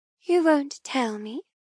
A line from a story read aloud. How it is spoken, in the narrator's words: I ask in an innocent voice